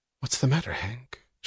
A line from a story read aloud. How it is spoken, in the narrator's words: she asked softly